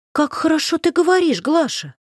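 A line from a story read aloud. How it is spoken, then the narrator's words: Exclaiming. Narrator (Russian): воскликнула Варенька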